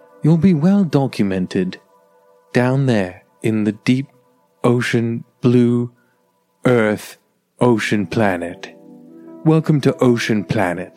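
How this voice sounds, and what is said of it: David Attenborough impression. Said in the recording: “Only David Attenborough can comfort them. He's like ... What accent is that?”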